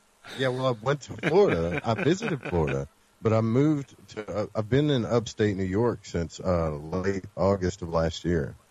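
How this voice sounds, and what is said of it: Slight southern American accent. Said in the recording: “you have a little bit of a southern accent, as some of you might hear ... I'm losing it a little”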